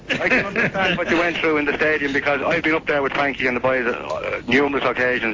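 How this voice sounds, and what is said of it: Dublin Irish accent. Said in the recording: “What kind of an accent have you told me? ... I'm a Dublin man”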